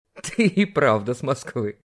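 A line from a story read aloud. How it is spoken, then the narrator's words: Loud laughter. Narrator (Russian): захохотал Олег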